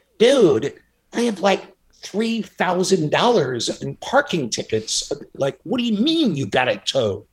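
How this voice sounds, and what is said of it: Impression of a friend's voice. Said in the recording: “this is a pretty good impression.”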